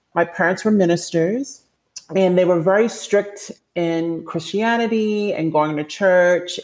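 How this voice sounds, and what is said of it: Strong Baltimore accent. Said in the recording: “my accent is so strong ... this Baltimore accent”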